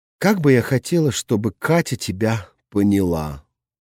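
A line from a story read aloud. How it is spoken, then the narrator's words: Sighing. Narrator (Russian): вздохнула Наташа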